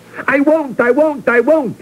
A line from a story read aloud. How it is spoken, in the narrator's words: he shouted